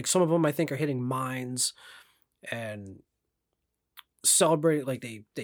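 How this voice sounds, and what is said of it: Usual voice. Nothing is said of it.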